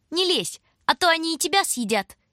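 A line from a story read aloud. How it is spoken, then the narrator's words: Squeaky. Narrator (Russian): Пропищала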